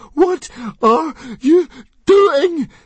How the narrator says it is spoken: screamed Fishlegs, frantically dancing up and down on the spot

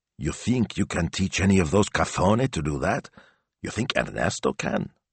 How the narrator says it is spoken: Signor Speranza dubiously whispered

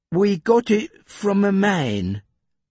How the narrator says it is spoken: said Jeff, slowly

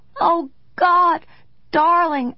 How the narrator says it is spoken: I cried

